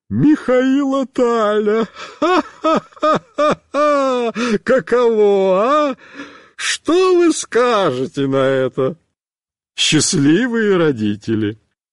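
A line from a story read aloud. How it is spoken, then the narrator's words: Laughing. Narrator (Russian): будет смеяться еще полчаса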